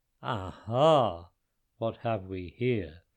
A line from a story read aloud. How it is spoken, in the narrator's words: boomed the giant